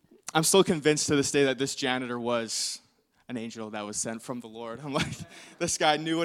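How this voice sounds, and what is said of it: Usual voice. Nothing is said of it.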